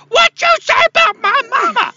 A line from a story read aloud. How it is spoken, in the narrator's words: the guy's just yelling